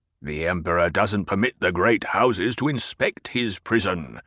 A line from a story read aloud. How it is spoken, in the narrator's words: the Baron growled